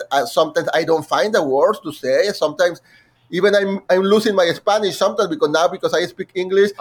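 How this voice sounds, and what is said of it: Non-native accent in English. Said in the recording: “as you can hear, I have an accent.”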